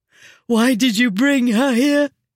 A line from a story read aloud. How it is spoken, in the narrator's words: Sarah said, and practically sobbed